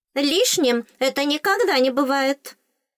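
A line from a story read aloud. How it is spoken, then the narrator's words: Stern sharp shout. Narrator (Russian): строго прикрикнула зубная фея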